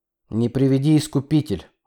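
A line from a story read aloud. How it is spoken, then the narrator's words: Gloomy reply. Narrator (Russian): мрачно ответил пассажир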